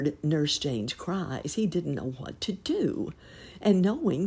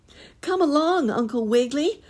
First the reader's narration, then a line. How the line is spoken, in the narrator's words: shouted Miss Jane Fuzzy Wuzzy